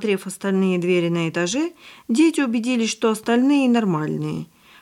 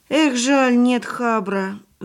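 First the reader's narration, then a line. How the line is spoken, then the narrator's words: Little girl sighing. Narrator (Russian): вздохнула девочка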